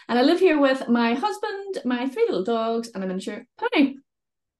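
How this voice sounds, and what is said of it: Northern Irish accent. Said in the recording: “I live in Northern Ireland, as you may be able to tell from my accent. Sometimes it's mistaken as Scottish, but I'm definitely from the north of Ireland.”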